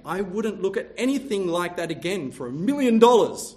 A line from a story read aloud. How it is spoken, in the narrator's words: One man exclaimed